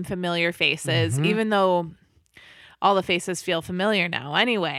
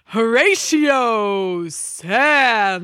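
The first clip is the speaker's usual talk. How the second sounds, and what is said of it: TV show intro announcer impression. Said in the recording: “I'm sort of saying it like the SNL intro... our impression of the SNL intro guy... how bad it is”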